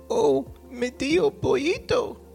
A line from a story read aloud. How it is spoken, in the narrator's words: cried the fire in a weak, wavering voice